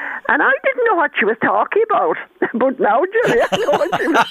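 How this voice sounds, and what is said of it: Usual voice. Nothing is said of it.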